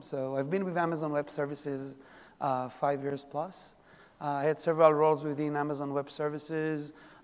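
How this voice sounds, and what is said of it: Israeli accent. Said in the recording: “Originally, I'm from Israel. This is where the accent from.”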